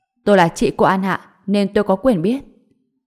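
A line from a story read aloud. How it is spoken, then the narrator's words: Somewhat scolding tone. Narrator (Vietnamese): An Ngọc giọng nói có chút quát tháo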